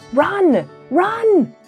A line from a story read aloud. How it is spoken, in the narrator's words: shouted Mr